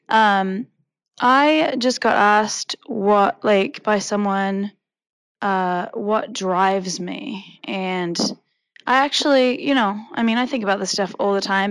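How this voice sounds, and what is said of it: Hoarse, nearly lost voice. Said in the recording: “as you can hear, my voice is almost gone”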